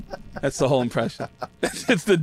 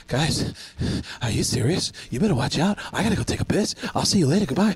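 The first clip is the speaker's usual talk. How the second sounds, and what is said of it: Out-of-breath imitation of another person's voice. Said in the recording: “a Mark Wahlberg impression, but I do something I call out of breath Mark Wahlberg... the dumbest, it's the most useless impression of all time”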